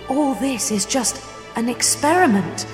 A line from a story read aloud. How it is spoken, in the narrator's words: I gasp